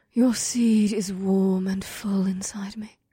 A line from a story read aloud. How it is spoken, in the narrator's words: she whispered